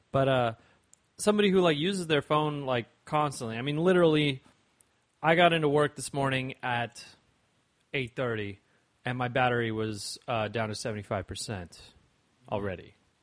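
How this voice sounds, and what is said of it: Slightly slurred, tipsy speech. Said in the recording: “Sorry, I've been drinking, so I'm slurring a little bit.”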